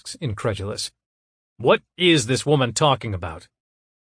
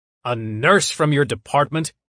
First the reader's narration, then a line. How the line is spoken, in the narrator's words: He barks